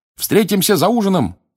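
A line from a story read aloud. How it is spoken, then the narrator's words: Shouted. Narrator (Russian): крикнул он Рону с Гермионой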